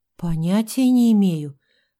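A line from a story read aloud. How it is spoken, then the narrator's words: Confused mumble. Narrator (Russian): растерянно пробормотала Евгения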